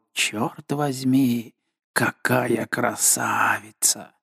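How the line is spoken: Admiring murmur. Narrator (Russian): Морен в восхищении пробормотал

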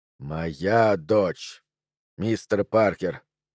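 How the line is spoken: Growled. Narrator (Russian): прорычал он

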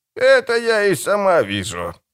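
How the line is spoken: Grumbling hag. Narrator (Russian): буркнула корга

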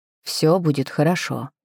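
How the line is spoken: Quiet, confident. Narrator (Russian): сказал он наконец, тихо, уверенно, как тогда в огне

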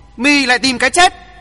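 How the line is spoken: Loud shout. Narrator (Vietnamese): Hoàng Thượng Chí hét to

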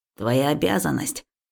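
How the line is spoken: Grumbling. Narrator (Russian): ворчал Дрюня

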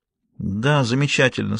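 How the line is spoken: Weak voice. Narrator (Russian): слабым голосом проговорила Виктория

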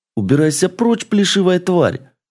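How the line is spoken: Creature screaming while fleeing. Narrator (Russian): завопил гремлин, улепетывая от хищницы

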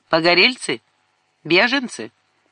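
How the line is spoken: Old woman's sharp question. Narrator (Russian): Старуха резко спросила

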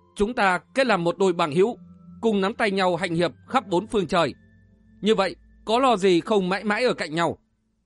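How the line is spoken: Stern voice. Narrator (Vietnamese): Phạm Thù trầm ngâm một lúc nữa, đoạn nghiêm giọng

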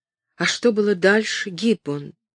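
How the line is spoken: Whispered. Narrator (Russian): прошептала Кэтрин

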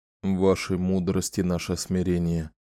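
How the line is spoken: Quiet recitation. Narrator (Russian): тихонько процитировал посвящение генерал Керсон

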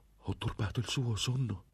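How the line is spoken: Exclaimed. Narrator (Italian): esclamò

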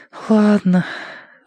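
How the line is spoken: Exhaling. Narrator (Russian): выдохнул Рыжик

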